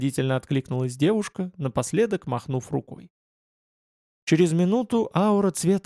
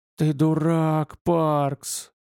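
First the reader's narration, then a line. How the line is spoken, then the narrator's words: Angry hiss to himself. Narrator (Russian): зло прошипел он себе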